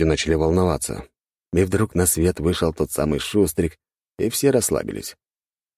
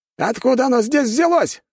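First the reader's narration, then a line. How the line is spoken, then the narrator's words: Soldier shouting. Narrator (Russian): кричал солдат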